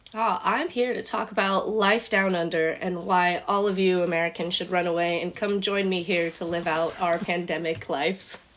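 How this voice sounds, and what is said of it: American accent. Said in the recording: “I still have such an American accent.”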